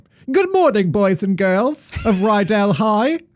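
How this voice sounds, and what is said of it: Imitates a film character's accent. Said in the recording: “Is that her accent?”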